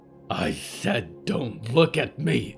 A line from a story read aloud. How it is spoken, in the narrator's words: Victoria growled, and her voice was 100 swords